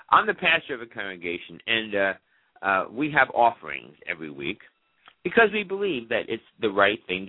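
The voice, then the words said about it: Slightly raspy voice. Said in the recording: “my voice sounds a little bit raspy. I do have a little bit of a cold ... I apologize if it sounds a little raspy. It sounds a little raspy to me”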